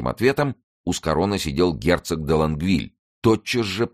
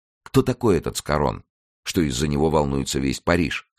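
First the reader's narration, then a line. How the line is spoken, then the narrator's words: Plain. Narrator (Russian): спросил Рауль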